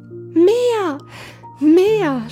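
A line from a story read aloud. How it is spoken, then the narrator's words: Shouted. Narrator (German): schrie Hävelmann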